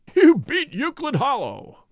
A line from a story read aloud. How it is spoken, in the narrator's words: roared Lord John